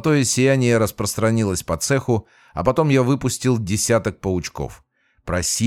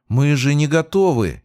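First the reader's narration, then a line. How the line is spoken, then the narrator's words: Frightened exclamation. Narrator (Russian): испуганно воскликнула Света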